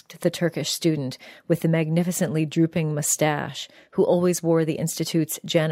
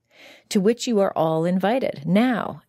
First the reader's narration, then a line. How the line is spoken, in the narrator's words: Ilka said in the bright voice of a hostess trying to make a sluggish dinner party go